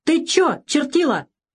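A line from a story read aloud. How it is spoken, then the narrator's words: Shout. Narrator (Russian): закричал капитан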